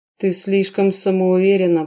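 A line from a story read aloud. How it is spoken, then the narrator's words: Growl. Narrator (Russian): прорычал Дэрион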